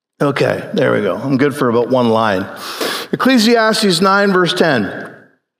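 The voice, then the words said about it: Hoarse, strained voice. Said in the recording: “My throat is losing my voice, I think.”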